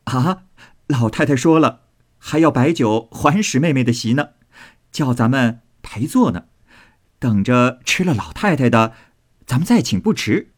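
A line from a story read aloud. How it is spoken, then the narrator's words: Laughing. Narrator (Chinese): 宝玉笑道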